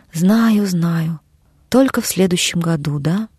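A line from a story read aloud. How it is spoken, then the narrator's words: Sad, answering himself. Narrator (Russian): печально качает головой и отвечает сам себе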